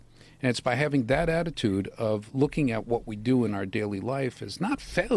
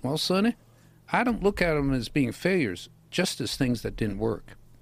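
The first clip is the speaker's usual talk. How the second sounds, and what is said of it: Southern-accented Thomas Edison impression. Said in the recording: “great Thomas Edison impression ... He's a Southern. ... When did he become from Alabama?”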